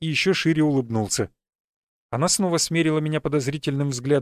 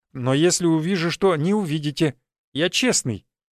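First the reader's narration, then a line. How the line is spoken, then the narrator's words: Plain. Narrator (Russian): ответил Марти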